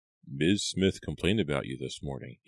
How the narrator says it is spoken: he murmured

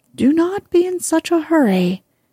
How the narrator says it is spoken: cried the horse

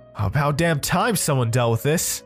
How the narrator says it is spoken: yelled

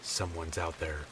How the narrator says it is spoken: I finally said in a whisper

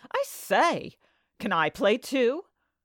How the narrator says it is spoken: The youth cried

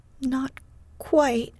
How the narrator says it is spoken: stammered Amy

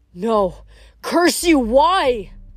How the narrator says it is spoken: A girl's voice, shaken with grief, cried

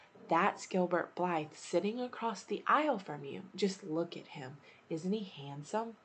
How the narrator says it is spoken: Diana whispered to Anne

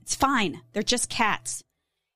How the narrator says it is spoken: he snapped at her

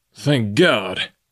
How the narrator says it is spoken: he cried

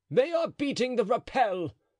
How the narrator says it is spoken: cried Chatillon

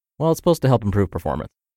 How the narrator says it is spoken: I quickly muttered

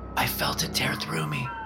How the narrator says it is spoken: she whispered

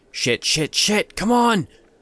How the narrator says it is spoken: wheezed

